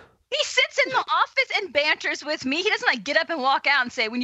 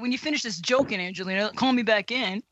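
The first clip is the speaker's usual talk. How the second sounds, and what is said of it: Imitates another person's voice. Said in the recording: “my Matt Bianco impersonation”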